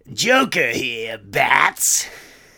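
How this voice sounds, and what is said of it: Joker cartoon villain voice. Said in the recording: “I'm working on impersonations. ... Not my best. Mark Hamill is terrific. I love the Joker, too.”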